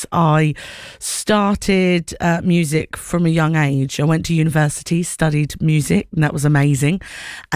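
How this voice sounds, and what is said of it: Essex accent. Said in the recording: “So you can hear my accent. I am originally from down south, Essex.”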